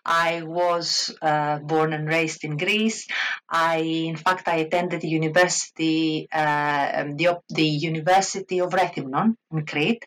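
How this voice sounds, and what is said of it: Greek accent. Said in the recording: “Obviously, I'm a Greek. You can probably hear it from my accent.”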